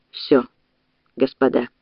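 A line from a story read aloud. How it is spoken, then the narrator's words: Barely audible, quiet. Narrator (Russian): Тихим голосом еле слышно произнес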